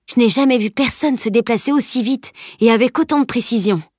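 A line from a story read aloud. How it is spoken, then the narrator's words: Exclaiming. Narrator (French): s'exclama-t-il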